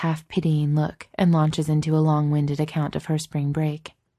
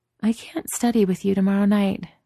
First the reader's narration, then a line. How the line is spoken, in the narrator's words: Chloe says drowsily